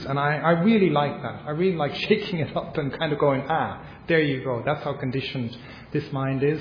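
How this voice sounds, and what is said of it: Irish English accent. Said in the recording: “my Irish accent”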